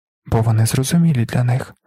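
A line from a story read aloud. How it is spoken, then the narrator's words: Calm mother explaining. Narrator (Ukrainian): спокійно пояснила мати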